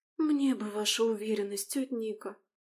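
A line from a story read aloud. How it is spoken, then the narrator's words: Sighing, sad young woman. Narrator (Russian): вздохнула и грустно улыбнулась девушка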